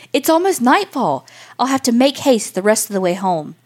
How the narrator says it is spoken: the soldier cried

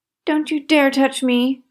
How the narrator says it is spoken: cried the bully

